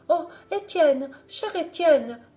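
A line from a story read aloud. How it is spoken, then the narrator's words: Exclaimed. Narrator (French): s'écria-t-elle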